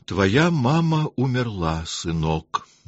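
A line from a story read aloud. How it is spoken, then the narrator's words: Gentle. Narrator (Russian): мягко сказал Павел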